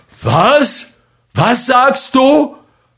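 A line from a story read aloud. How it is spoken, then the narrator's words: Full-throated roar. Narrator (German): brüllte aus voller Kehle Mikujew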